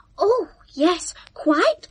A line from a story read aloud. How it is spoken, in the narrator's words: gasped Mr